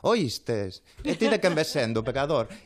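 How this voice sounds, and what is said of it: Comedian impression with Galician accent. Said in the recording (Spanish): “me hacía un Chiquito de la Calzada, pero con acento gallego”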